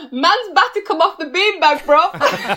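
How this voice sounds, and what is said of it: Imitates another person's voice. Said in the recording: “do your impression one more time ... why did he talk like that?”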